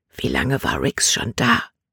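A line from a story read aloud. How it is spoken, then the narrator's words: Whispered. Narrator (German): flüsterte sie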